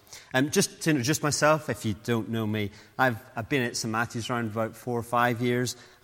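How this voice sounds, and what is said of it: Northern Irish accent. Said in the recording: “in case you're trying to place the accent, I come originally from ... Ballymena in Northern Ireland”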